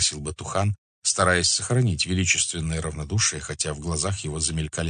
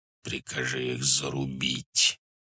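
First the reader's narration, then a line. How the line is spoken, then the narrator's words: Quiet hiss. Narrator (Russian): тихо прошипел Субудай-Богатур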